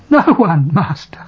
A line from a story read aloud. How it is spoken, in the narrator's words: The woman replies, sobbing